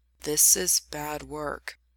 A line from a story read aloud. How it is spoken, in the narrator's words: says quietly